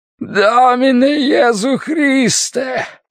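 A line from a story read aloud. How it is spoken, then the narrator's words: Yelling. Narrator (Russian): орал он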